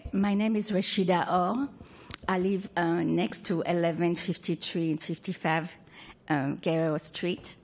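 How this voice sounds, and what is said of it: Speaks English with an accent. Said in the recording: “I have an accent, so hopefully you're going to understand what I'm saying.”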